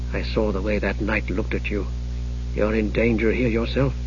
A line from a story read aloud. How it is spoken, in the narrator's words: He hesitated, then said quietly